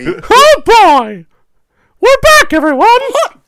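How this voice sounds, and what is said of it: Mickey Mouse cartoon voice impression. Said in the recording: “my best Mickey Mouse impression”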